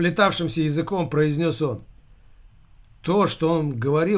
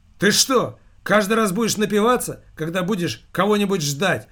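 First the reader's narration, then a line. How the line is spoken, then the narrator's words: Exclamation. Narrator (Russian): воскликнула Ариэл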